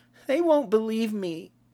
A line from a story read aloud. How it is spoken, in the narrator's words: whined the boy